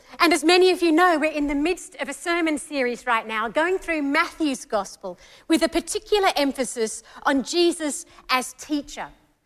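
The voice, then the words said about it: Mixed Australian and English accent. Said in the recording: “my funny accent, which is Australian and English all mixed into one”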